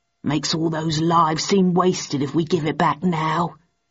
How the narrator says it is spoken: added Stanford gruffly

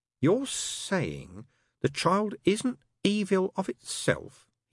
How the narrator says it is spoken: he said slowly

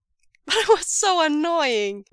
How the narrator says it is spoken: Wei Ying laughs, flushed with a burst of giddy delight at Lanjan's reply

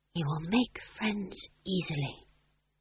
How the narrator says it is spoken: she whispered

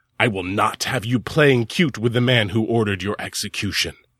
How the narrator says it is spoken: his mother … hissed at him

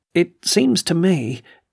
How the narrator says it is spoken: he faltered oddly under her gaze

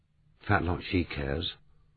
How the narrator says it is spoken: murmured Mandy

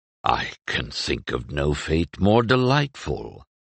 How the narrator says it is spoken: murmured

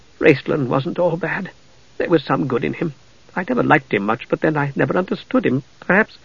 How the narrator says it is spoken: Tika said softly, brokenly

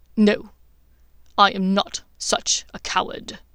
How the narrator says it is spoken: said Snape in a gritting tone

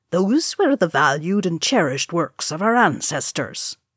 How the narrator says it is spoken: Oin said stiffly

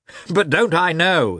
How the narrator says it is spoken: added, laughing

